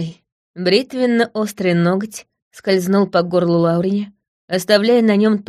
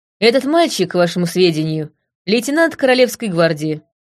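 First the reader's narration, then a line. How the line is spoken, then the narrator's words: Dry remark. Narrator (Russian): сухо заметила я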